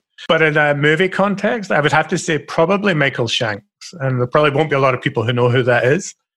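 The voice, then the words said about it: Scottish accent. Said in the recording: “I'm a stereotypical Scottish person ... I've got my funny accent coming across”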